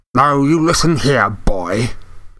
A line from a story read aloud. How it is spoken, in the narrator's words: he snarled